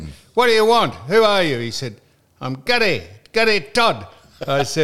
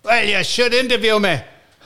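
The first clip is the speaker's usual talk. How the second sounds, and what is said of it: Put-on Scottish accent. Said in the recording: “He's Scottish ... Not bad accent, is it? ... No, it's good accent.”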